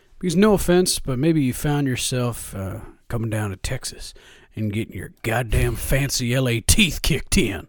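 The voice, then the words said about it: Put-on Texan accent. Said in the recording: “I get to do that accent every once in a while, but only when we beat a West Coast team.”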